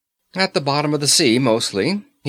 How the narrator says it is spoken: he replied cheerfully

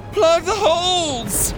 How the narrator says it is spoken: her mom screamed

